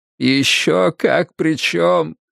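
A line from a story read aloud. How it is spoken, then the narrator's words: Tearful sobbing. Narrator (Russian): Вуди всхлипнул, слезы катились по его щекам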